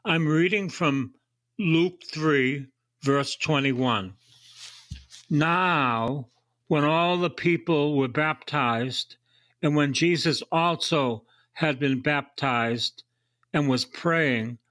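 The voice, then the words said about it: Voice in poor condition. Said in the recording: “My voice is not so hot”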